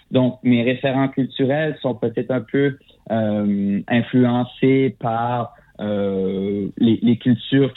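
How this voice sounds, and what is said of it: Fransaskois French accent, not Québécois. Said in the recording (French): “mon accent qui est pas québécois, qui est francescois ... on est des francophones en Saskatchewan”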